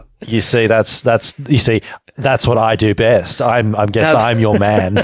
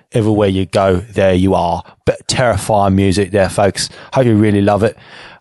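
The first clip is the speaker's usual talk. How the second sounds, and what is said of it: Bad put-on British accent. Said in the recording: “my terrible impersonation of a British accent ... men doing bad British accents”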